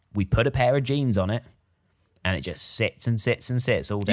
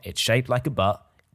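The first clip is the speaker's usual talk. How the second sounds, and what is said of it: Brief slip into American accent. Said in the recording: “You dipped into a bit of an American accent there for about a second and then you pulled out of it.”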